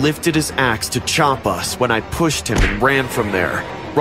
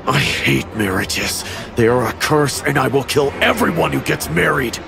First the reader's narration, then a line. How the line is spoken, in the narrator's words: Rob smiled and menacingly said